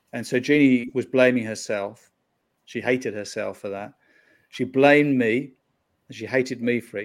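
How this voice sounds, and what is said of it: UK English accent. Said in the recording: “probably tell from the accent, I'm not from Chicago. You know, I'm from the UK”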